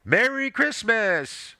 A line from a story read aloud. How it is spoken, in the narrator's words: the man called out